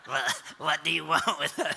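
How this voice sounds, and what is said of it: Attempted demon voice. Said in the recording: “I don't, I don't know how to do a demon voice”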